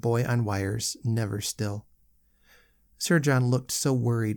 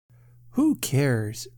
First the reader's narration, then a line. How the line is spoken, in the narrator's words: cried the boy with a dash of defiance